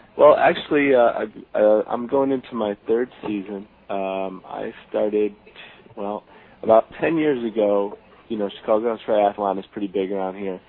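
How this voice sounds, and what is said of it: Chicago accent. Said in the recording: “He's got the Chicago accent.”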